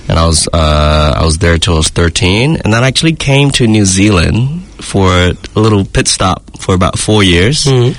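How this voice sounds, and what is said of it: American accent. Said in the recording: “got a tinge of Americanism ... that accent, though, has stuck from the States far more than I would say Hong Kong or New Zealand”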